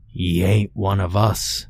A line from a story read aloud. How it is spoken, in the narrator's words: croaked in a hollow, gravelly voice that sounded as though it had come from an abyss at the end of the ocean floor